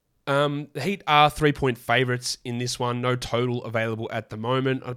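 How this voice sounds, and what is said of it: Hoarse, strained voice. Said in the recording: “my volume was too low ... I lost my voice”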